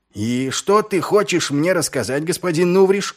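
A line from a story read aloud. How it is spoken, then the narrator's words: Shout into darkness. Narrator (Russian): крикнул Ваймс в темноту переулка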